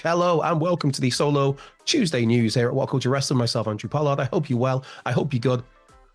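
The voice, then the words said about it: Raspy voice. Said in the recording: “slight apologies for my raspy voice. We're getting there, people.”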